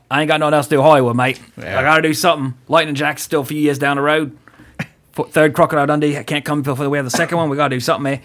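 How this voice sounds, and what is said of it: Bad put-on Australian accent. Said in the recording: “enough of my bad Australian accent.”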